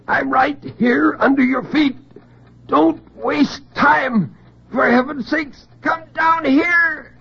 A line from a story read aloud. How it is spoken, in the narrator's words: In terrible silence, he screamed